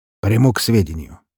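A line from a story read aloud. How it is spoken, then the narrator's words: Somewhat harsh tone. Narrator (Russian): жестковатым тоном ответил он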